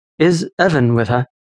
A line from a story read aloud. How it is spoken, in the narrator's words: Lucian asked